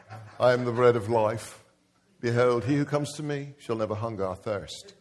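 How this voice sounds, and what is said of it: Put-on British accent. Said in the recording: “I've seen him with the British accent.”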